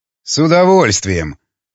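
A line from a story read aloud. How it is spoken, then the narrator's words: Grumbling. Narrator (Russian): проворчал Волков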